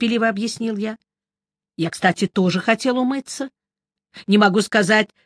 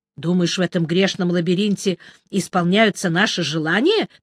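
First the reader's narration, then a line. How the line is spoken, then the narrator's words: Contemptuous snort. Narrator (Russian): презрительно фыркнул Мелифара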